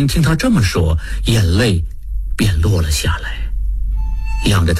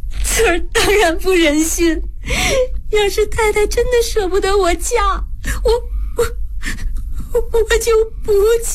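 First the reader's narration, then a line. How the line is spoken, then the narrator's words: Sobbing. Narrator (Chinese): 翠儿一听这话，心头大软……大哭道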